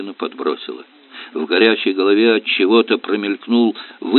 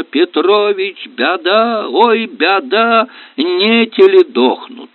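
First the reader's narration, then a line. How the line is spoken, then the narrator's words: Frantic hoarse shout. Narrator (Russian): закричал, захрипел, делая страшные глаза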